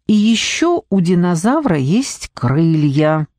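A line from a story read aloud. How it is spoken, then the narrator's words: Loud. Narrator (Russian): громко сказала Нелли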